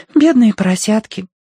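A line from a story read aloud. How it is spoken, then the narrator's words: Sighing. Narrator (Russian): вздохнула Агнес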